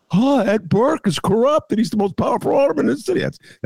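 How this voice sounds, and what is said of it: Imitates Chicago voters collectively. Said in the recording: “That's my imitation collectively of the people in the city of Chicago.”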